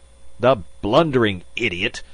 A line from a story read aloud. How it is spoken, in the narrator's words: Magnan spluttered